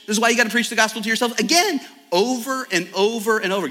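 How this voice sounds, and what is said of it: Speaking very fast. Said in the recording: “I know I'm talking really fast.”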